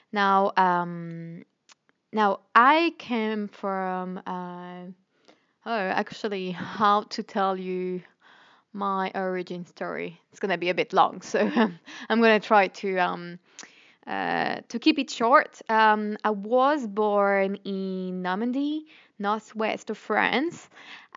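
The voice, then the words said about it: French accent with Australian tinge. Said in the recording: “this little accent on the background ... a mix of French, Australian, and a bit of a UK as well, but mostly Australian”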